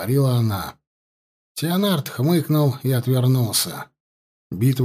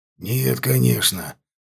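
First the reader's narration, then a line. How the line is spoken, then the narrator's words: Hoarse. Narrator (Russian): произнес он хрипло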